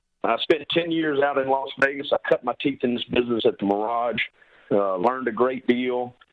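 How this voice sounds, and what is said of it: Strong Southern Louisiana accent. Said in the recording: “I am born and bred from Baton Rouge, Louisiana... my accent... I don't think anybody understood a word I said... a Southern boy”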